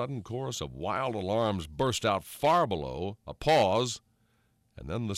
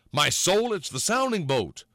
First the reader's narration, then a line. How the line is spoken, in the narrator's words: Thornburg exclaimed